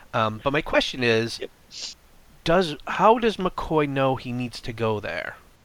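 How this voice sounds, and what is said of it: Congested voice. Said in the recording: “I have a little bit of a cold, so I'm not going to be able to do any voices very well”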